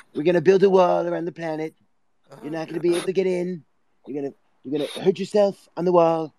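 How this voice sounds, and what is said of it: Donald Trump impression. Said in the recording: “That's a good impersonation. ... Donald Trump.”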